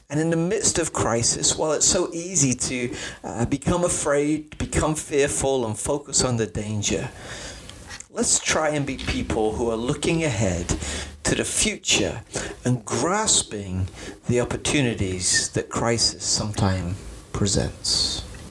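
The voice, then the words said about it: Preacher-style inspirational delivery. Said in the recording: “Did I have my preacher voice on? ... You did.”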